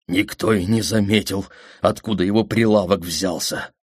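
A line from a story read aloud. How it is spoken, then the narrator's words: Trembling voice. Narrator (Russian): дрожащим голосом сказал Седрик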